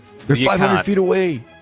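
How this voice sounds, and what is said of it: Shouting. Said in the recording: “I'm shouting.”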